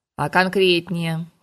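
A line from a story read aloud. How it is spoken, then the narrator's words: Cold, offended. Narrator (Russian): холодно уточнила Шерька, обиженная за такие высказывания о дяде Вите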